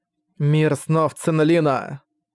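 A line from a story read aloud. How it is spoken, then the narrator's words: Grim, through gritted teeth. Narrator (Russian): мрачно процедила Фэн Цюжань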